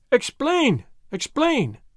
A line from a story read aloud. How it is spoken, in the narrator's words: they cried